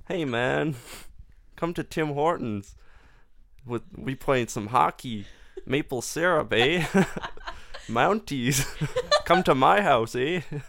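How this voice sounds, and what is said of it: Weak attempt at Canadian accent. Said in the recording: “you don't even have a good Canadian accent”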